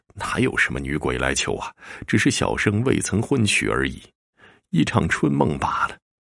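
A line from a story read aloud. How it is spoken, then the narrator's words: Relieved, self-mocking inner voice. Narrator (Chinese): 长吁了一口气，自嘲的笑了一声，心说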